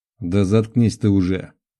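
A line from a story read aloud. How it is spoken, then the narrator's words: Irritated grumble from leader. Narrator (Russian): Раздраженно буркнул старший группы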